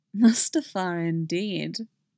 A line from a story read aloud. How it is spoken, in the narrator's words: she murmurs